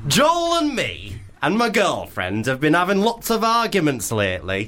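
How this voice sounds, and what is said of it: Exaggerated camp voice. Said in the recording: “did you do that voice on purpose? ... Really camp. ... The most camp”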